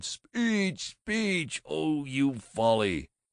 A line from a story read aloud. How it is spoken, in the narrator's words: The Boosters cheered, they laughed, they wept, they cried